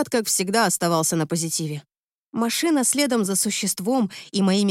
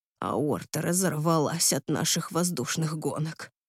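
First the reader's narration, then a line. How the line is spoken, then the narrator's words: Quiet, fairly calm. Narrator (Russian): сказал тихо, но довольно спокойно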